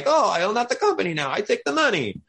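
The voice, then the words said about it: Bad put-on Italian accent. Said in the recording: “It was my worst Italian accent.”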